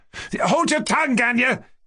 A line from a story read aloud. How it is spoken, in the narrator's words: Kolya shouted again